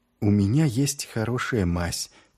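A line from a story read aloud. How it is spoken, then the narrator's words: Said very quietly. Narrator (Russian): тихонько сказала Шелли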